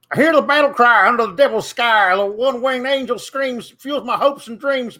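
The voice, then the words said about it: Singing in put-on redneck accent. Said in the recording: “do an impression of your of me ... weird ... redneck impression from TikTok ... an impersonation of what Denise says that I sound like”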